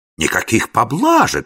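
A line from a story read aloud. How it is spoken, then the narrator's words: Exclamation. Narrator (Russian): воскликнул принц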